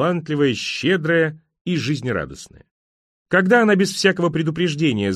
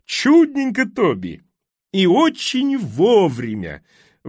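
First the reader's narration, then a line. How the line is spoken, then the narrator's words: Very loud joyful exclamation. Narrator (Russian): воскликнула она так громко, что ее радостный голос прокатился по ресторану, словно грохот от пушечного выстрела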